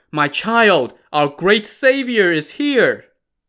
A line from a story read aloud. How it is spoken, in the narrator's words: The old man called out